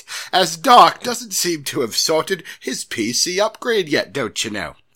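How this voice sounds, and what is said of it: Put-on English accent. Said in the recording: “Can you read this in an English accent? ... I appreciated the Michael Caine English accent. ... That was good.”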